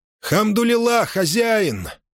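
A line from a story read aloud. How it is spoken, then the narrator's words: Confident shout. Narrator (Russian): крикнул он, уверенный, что это дело рук Муссы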